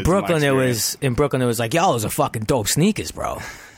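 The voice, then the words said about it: Bad put-on New York accent. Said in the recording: “I do a bad New York accent.”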